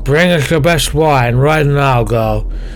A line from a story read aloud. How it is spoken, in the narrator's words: Kristen slurred